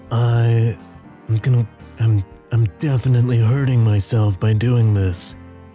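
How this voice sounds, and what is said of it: Put-on character voice. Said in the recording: “my Alan Wake voice”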